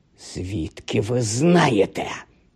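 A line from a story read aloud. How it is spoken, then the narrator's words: Hissing. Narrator (Ukrainian): зашипіла вона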